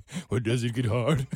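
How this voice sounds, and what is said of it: Imitates another person's voice. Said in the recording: “I don't talk like that. My voice is a little deeper than that.”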